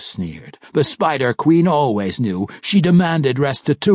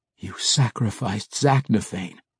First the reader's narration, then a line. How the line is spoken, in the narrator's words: Drizzt breathed, hardly able to get the words out of his mouth